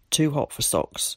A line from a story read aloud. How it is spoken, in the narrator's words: he muttered